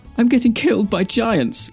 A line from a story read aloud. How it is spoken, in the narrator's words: Dan whimpered